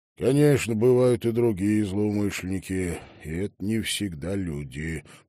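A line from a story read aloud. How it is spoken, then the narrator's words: Grumbling. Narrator (Russian): проворчал он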